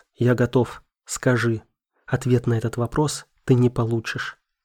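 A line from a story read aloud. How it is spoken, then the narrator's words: Plain. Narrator (Russian): ответила Марина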